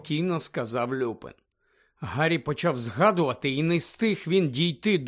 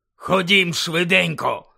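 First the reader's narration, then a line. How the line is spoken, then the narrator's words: Barked. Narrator (Ukrainian): гаркнув Муді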